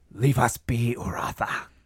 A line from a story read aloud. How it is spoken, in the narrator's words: hisses and shrieks